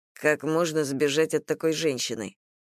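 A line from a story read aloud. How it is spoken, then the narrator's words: Calm. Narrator (Russian): спокойно произнесла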